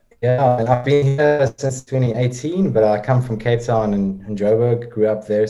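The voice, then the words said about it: Slight South African twang. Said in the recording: “you have a little bit of a twang to that accent”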